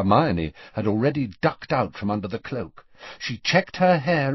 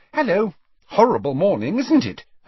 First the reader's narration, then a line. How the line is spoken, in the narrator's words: Hermione said brightly to Borgin